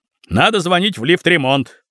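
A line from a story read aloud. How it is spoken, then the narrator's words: Shouted. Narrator (Russian): кричал кое-кто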